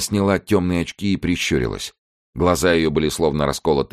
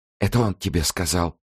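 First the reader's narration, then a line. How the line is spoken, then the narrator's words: Trembling female whisper. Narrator (Russian): прошептала она дрожащим голосом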